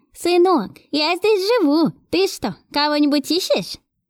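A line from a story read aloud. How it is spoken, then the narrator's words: Old woman's voice. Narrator (Russian): Спросила я старушечьим голосом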